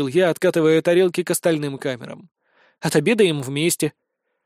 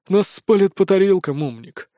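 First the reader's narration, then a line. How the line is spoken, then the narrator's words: Sighing. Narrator (Russian): вздохнул Виктор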